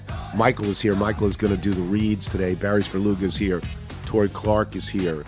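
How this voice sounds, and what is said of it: Hoarse, congested voice from cold. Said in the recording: “I'm in day four of a cold and day two of a terrible, terrible cold. So my voice is bad.”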